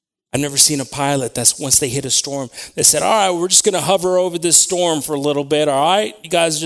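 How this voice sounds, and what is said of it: Usual voice. Nothing is said of it.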